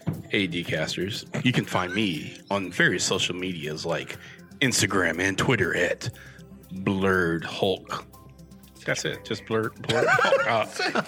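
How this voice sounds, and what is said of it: Smooth radio announcer voice. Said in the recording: “get in my announcer voice ... your voice. Jesus. When you do that voice, man, like, I think you're about to like announce some slow jams here on Power 106”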